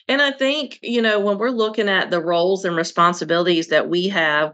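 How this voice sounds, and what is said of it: Coastal Southern US accent. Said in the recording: “my coastal borderline Southern accent ... It's really a Eastern North Carolina ... it's not going anywhere”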